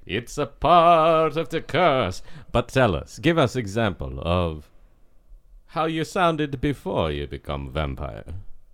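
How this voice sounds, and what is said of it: Put-on Eastern European vampire accent. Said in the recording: “Eastern European accent ... Every vampire I've ever known has to have sound like these.”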